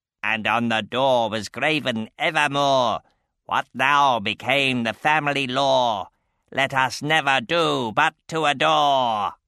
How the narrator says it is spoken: The white raven hopped on his stand, cackling

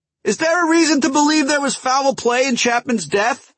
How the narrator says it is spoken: shouted another

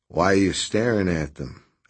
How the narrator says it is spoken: asked Redrick in a low voice

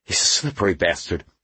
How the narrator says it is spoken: Hayward panted

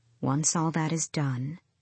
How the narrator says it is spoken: she said, smiling faintly

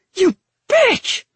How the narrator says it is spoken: He screeched

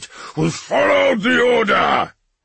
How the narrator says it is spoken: Russ roared

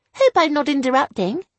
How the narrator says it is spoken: I chirped

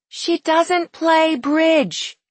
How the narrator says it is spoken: Isabel shouted in his ear

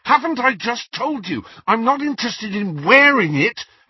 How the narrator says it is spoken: Harry said fiercely

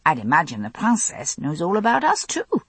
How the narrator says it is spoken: I added cheerfully

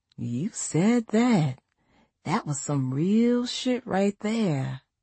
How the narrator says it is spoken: She grinned at me and whispered

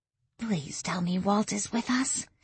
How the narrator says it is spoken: Lily said in a whisper

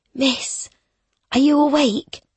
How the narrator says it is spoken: Betty whispers

